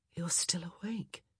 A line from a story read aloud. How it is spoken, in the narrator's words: she murmured, her voice scratchy and mellow with sleep